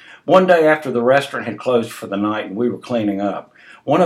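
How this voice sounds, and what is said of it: Usual voice. Nothing is said of it.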